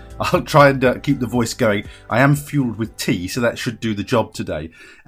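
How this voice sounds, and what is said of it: Slightly reedy, tired voice. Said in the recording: “My voice is a little bit reedy today because I've been doing corporate trading all day and using my voice”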